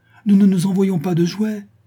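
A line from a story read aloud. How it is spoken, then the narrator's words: Proud exclamation. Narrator (French): s'écria Catherine, dont l'orgueil surmonta la confusion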